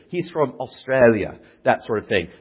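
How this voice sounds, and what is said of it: Poor put-on Australian accent. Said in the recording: “That was an awful Australian accent.”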